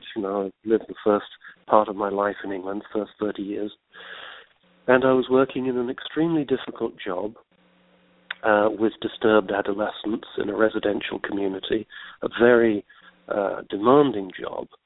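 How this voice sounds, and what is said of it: English accent. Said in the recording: “I was living in England. That's why I've got this funny accent.”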